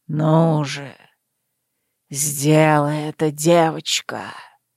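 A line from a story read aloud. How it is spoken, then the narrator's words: Urging, ingratiating voice. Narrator (Russian): поторопил вкрадчивым голосом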